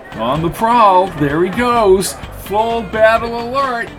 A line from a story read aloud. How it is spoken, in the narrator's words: shouted Lindy